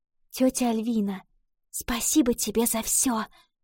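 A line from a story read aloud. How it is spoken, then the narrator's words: Whisper, girl. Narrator (Russian): прошептала девочка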